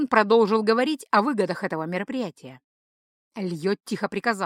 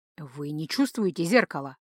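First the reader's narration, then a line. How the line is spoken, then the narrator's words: Whisper again. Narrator (Russian): Вновь шепот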